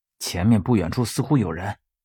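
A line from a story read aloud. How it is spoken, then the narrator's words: Soft, quiet. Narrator (Chinese): 轻声对他说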